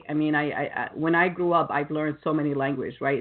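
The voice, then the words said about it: Slight non-native accent. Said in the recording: “I have a little accent, and I'm proud that I have an accent, because I don't try to hide it”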